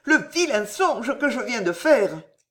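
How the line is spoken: Queen exclaiming. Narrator (French): s'écria la reine

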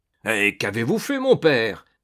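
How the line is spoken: Exclaimed. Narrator (French): s'écria César

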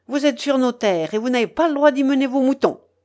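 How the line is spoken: Exclaimed. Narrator (French): s'écria-t-il

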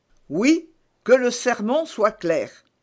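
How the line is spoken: Plain. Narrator (French): dit le curé

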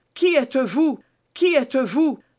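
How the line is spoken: Exclaiming. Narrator (French): s'écria-t-il

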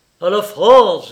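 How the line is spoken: Vibrant, stirring voice. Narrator (French): dit-il d'une voix vibrante

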